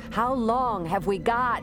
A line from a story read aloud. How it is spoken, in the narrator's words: Shada shouted to be heard over the wind